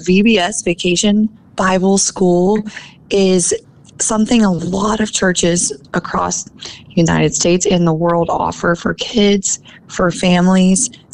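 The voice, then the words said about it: Rough, hoarse voice. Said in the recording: “She's almost lost her voice a couple times this week ... oh man, my voice, oh my goodness, my voice sounds so rough, but I've been pronouncing and enunciating and talking very loudly the past few days”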